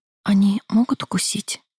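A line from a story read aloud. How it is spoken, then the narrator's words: Quiet whisper. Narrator (Russian): Тихо прошептала я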